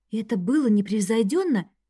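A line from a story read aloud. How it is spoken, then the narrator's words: Whisper. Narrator (Russian): шепнула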